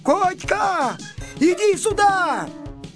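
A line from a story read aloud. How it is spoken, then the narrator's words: Sudden shout. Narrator (Russian): вдруг закричал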